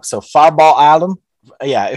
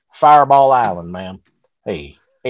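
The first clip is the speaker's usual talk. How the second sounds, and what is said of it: Put-on hick accent. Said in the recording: “if I had like a hick accent”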